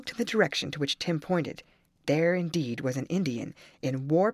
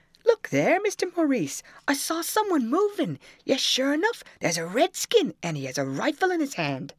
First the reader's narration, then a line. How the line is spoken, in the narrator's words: Tim exclaimed